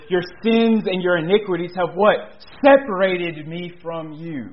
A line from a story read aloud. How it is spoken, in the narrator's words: the prophet cries out to the wicked nation of Israel